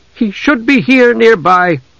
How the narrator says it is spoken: Desra said angrily

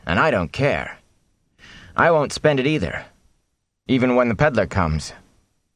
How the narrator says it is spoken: Matt said firmly

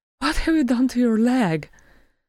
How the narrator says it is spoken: she said breathlessly

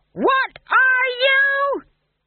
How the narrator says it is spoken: He screamed

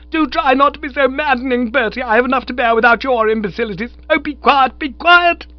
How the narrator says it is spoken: she shouted in the sort of voice used by sergeant majors and those who call the cattle home across the sands of Dee

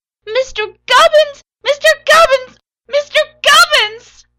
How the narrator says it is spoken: Her voice wailed

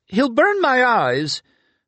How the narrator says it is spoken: He then cried in fear

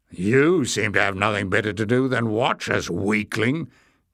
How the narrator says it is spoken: growled Glock

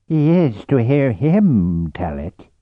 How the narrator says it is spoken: growled Vortala

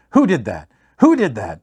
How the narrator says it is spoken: He curses as he lands on the ground, shouting

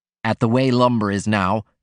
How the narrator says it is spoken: he said

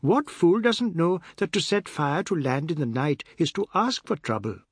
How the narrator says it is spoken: Chinta said, as she happily

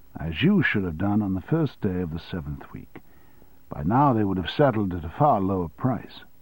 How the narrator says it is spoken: said Russell calmly

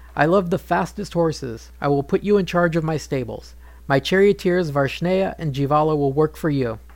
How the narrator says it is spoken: King Rituparna laughed and said

